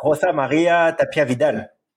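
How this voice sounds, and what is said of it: Put-on Mexican accent. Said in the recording (French): “Tu peux le redire avec l'accent mexicain, s'il te plaît? ... Voilà pour l'accent.”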